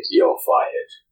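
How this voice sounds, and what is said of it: Imitates another person's voice. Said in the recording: “That was a pretty good impression... my Alan Sugar is the same as my Vinnie Jones”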